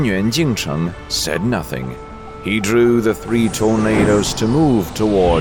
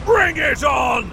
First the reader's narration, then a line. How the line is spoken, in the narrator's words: Xuanyuan Dapan roared with laughter